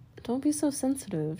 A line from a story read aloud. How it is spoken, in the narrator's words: she said